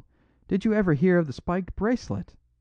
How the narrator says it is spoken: cried Flambeau

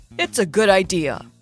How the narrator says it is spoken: he said in his usual mentor voice

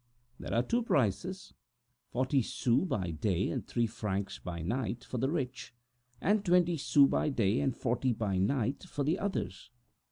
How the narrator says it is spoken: La Rapet answered gravely

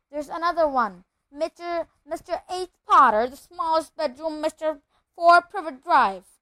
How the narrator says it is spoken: he shouted

